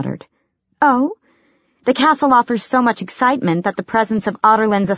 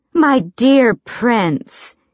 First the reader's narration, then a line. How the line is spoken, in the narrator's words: she drawled